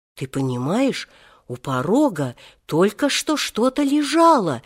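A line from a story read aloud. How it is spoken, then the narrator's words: Frightened woman. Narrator (Russian): испуганно сообщила она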